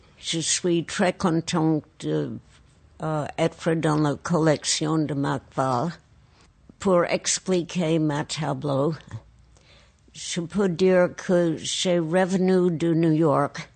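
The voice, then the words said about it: Speaks French with an accent. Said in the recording (French): “malgré mon accent”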